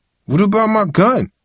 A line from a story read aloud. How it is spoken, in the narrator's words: Tyrae asked, his voice rising in alarm